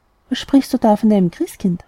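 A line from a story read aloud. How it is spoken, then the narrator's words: Plain. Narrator (German): fragte die Mutter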